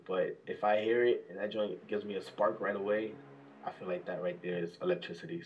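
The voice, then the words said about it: New York accent. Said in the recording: “this ain't no Atlanta accent... I actually like the New York accent.”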